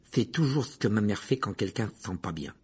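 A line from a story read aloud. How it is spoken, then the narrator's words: Muttering. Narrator (French): marmonna Ron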